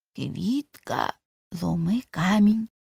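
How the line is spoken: Whisper. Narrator (Ukrainian): прошепотів Цибулька

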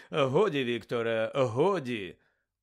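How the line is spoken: Forced laugh. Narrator (Ukrainian): удавано засміявся Каркаров

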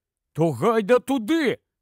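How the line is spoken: Exclaimed. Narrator (Ukrainian): вигукнув Рон

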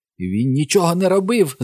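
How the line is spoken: Shriek. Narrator (Ukrainian): заверещав Бобі

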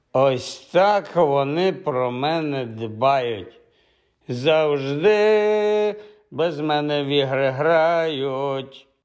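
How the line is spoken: Strange sung voice. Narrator (Ukrainian): дивним голосом проспівав Хаул

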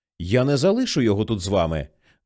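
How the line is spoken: Genuinely angry speech. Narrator (Ukrainian): вже говорила насправді сердито

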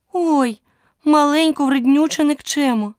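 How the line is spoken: Exclamation. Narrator (Ukrainian): вигукнула Аліса

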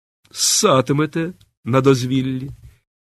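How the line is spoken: Cocky, provocative tone. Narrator (Ukrainian): її задирикуватим тоном

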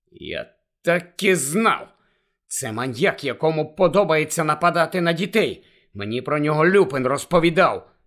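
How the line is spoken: Angry explanation. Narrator (Ukrainian): сердито пояснив Гаррі

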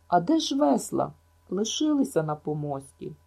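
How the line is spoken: Short stifled cry. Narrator (Ukrainian): Ен коротко здушено скрикнула

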